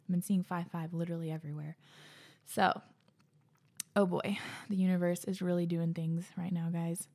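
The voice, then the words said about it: Breathless, out-of-breath speech. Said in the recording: “I'm so out of breath. Why can't I catch my breath?”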